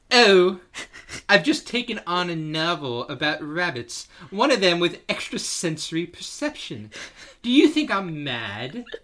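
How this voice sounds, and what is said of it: Semi-competent put-on British accent. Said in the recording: “You got to do it in a voice ... the only semi-competent British accent you could do is just Matt Smith”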